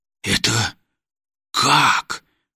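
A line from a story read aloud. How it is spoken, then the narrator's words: Stunned mumble. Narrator (Russian): ошарашенно пробормотал Лерман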